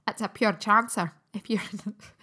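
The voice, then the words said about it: Bad Scottish accent. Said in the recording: “It's a terrible Scottish accent.”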